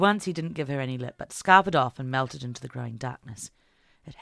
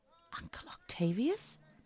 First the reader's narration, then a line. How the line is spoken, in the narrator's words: whispered